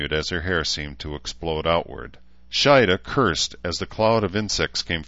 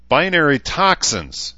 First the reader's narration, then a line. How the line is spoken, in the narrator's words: shouted